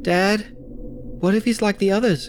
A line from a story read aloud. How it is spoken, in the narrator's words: Charlie asked nervously